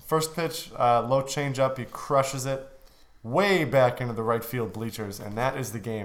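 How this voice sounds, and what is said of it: Slightly gruff, hoarse voice. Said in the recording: “my voice might sound a little bit different. I'm a little gruff today because I was yelling a lot.”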